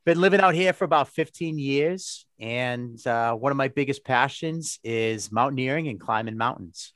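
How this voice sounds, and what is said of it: Massachusetts accent. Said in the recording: “The accent is from Massachusetts ... if you don't understand me, get a dictionary from Boston, Massachusetts”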